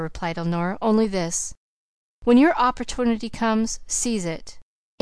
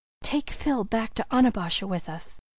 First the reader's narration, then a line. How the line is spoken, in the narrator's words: she whispered